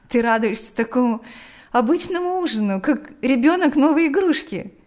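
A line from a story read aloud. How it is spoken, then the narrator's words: Laughing. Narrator (Russian): смеялась Лика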